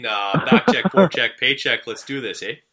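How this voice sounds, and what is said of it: Exaggerated Canadian hoser accent. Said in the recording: “you start to sound like a little bit more of a hoser... That's the Canadian accent I'm thinking of... I definitely put it on if you need me to”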